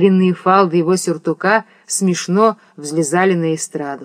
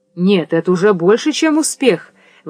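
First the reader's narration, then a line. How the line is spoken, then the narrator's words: Woman's exclamation. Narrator (Russian): воскликнула Софья Андреевна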